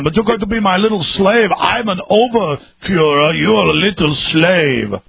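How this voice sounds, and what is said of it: Arnold Schwarzenegger impression. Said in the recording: “your Arnold Schwarzenegger impersonation. You do the best one.”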